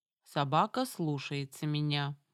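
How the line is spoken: Even-toned warning. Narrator (Russian): ровным тоном предупредила Самара

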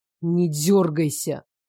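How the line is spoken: Tense hiss. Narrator (Russian): Ирман зашипел, когда нас как следует качнуло на ветках

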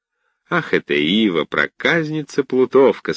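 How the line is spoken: Cheerful. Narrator (Russian): сказал он весело

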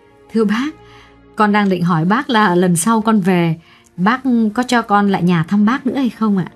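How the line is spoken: Smiling reply. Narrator (Vietnamese): Xuyến mỉm cười đáp

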